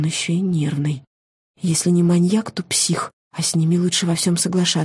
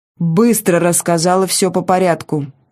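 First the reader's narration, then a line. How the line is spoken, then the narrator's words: Barked commanding tone. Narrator (Russian): рявкнул он командным тоном, каким может обладать только человек, привыкший тиранить безропотных подчиненных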